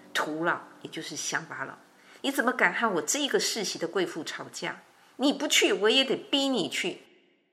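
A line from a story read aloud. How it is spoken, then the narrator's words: Furious old woman. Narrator (Chinese): 老太婆是更怒气冲天，而且跟他说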